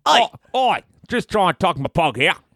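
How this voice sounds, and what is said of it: Put-on Australian accent. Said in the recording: “Australian”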